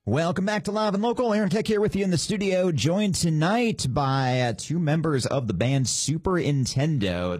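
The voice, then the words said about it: Amped-up radio announcer voice. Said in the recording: “Fantastic radio voice ... like amped up 10%”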